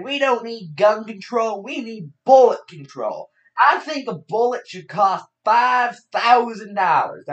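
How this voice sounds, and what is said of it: Imitates another person's voice, poorly. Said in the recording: “my Chris Rock impression. It's awful in every single way, I know.”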